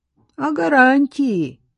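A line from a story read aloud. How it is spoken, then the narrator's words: Sudden plaintive. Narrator (Russian): вдруг жалобно проговорил бандит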